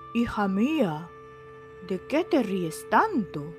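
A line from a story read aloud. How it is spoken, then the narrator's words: Joyful exclamation. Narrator (Spanish): exclamó el rey alborozado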